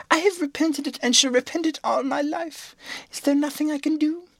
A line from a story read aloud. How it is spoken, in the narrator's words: cried the poor princess